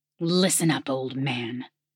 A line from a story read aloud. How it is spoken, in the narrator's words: the tall pyromancer hissed